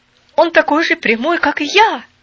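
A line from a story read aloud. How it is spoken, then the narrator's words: Exclaiming. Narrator (Russian): воскликнул Дикон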